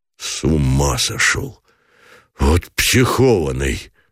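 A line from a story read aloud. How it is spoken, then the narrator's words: Breathless, half laugh half sob. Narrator (Russian): выдохнул Гранатуров, глотком проталкивая не то смех, не то всхлип в горле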